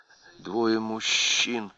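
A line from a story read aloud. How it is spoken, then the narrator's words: Muttering. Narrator (Russian): пробормотала она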